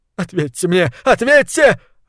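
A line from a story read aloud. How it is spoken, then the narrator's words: Yelling. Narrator (Russian): орал Талант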